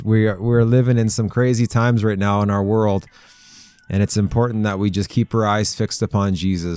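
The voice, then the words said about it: Slightly raspy voice. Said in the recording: “My voice is a little raspy today.”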